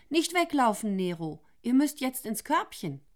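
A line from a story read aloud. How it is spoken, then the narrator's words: Startled little cry. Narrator (German): Mit einem kleinen Aufschrei Isolde rief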